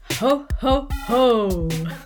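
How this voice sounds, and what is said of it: Jolly deep Father Christmas voice. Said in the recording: “my Father Christmas impression.”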